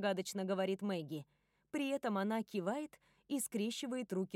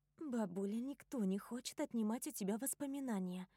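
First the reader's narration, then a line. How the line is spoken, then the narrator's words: Gentle granddaughter. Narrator (Russian): мягко замечает внучка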